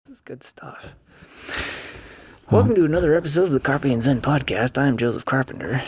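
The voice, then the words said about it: Old-time 1940s radio announcer voice. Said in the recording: “I brought my 1940s radio voice today.”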